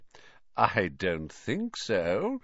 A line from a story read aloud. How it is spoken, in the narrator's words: said Snape, smiling coldly